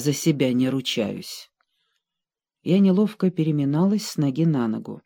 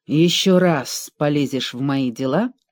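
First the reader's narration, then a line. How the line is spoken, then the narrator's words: Growling. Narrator (Russian): прорычала Красная Королева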